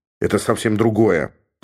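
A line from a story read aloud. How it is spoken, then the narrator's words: Grumbling. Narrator (Russian): проворчал Георг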